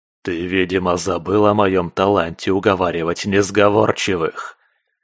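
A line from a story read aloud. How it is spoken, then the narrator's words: Growled into ear. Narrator (Russian): Прорычала в ухо куратору Лува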